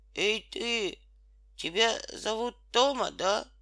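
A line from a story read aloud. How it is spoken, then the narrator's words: Hoarse question. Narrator (Russian): хрипло спросил Петька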